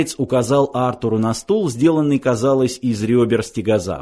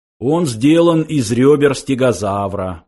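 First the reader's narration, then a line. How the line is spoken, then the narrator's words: Explaining. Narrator (Russian): пояснил Сларти Бартфаст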